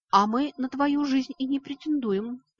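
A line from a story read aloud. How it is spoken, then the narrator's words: Hissing. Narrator (Russian): прошипел мой друг детства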